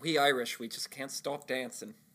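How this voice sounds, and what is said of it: Put-on Irish accent. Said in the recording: “How is your Irish accent better than mine?”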